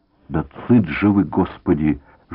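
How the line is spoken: Frightened old nasal whine. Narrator (Russian): жалобно прогнусил из угла перепуганный старческий голос

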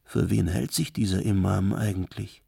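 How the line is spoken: Ashamed group murmuring. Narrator (German): Verschämt die Christen murmelten untereinander

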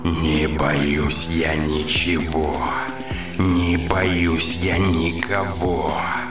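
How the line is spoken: Grumble. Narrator (Russian): мэр пробурчала

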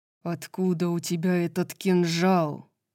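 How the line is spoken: Hissed. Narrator (Russian): прошипел Морвен

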